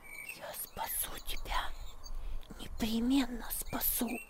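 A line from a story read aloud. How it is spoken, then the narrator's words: Girl whispering in ear. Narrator (Russian): шепнула девочка ему на ухо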